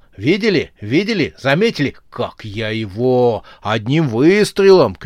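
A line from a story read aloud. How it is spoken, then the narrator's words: Shouting. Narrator (Russian): кричал он инопланетянам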